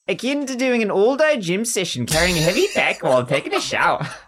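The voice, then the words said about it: Put-on Australian accent. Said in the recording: “I should do this in an Australian accent.”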